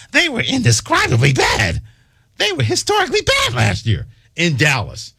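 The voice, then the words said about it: Impression of Tim Kirch. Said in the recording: “my best Tim Kirch impersonation”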